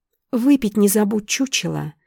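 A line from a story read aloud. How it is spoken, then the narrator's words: Sickly-sweet voice. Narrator (Russian): Приторно-сладким голосом проговорила она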